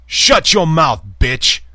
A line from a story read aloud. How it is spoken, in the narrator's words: jaguar snarled